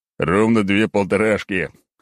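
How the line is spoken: Loud laughing. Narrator (Russian): хохотал я

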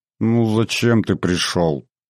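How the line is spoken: Suffering voice. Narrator (Russian): заговорила она страдающим голосом

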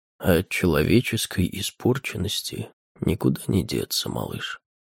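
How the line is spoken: Said softly. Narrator (Russian): мягко сказал

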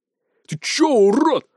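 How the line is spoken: Barking rashly. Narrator (Russian): рявкнул он, не разобравшись, кто перед ним

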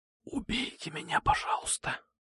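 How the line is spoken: Whisper. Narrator (Russian): прошептал я

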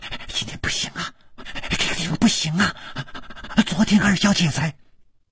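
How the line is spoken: Cut off mid-sentence. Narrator (Chinese): 他的嘴还没有说完，就好像被什么东西给堵住了

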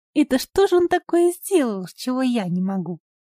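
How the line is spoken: Feigned disdainful indifference. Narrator (Russian): Левка старалась говорить пренебрежительно равнодушным тоном

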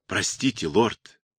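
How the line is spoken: Quiet, almost whispered. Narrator (Russian): тихо, почти шепотом произнес лейтенант

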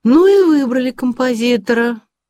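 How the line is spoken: Loud. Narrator (Russian): громко сказала Тубероза

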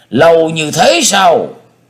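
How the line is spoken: Exclamation. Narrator (Vietnamese): Bác Đạo Sĩ Nguyên kêu lên

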